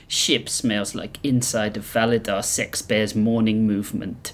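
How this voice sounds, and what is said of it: Put-on accent, not very good. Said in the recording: “Why do we all do this accent? ... We aren't very good at voices.”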